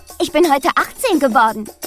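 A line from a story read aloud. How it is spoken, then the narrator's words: Exuberant shout. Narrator (German): rief Isabella übermütig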